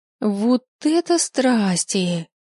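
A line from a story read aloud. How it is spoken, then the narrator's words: Joyful squeak. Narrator (Russian): Радостно пропищала Софья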